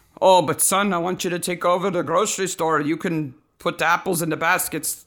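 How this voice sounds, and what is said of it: Put-on father voice, unclear accent. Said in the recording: “I don't know what that accent is.”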